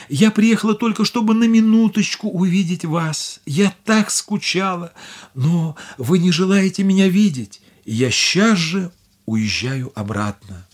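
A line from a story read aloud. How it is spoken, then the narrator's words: Tearful. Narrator (Russian): Бедная Дорагли сказала сквозь слезы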